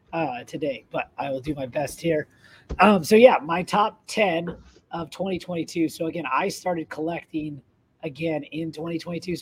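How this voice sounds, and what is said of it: Slightly raspy, strained voice. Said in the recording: “I lost my voice over the holidays, so I am a little raspy”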